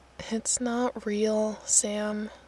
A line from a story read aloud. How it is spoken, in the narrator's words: he says wearily, all mockery gone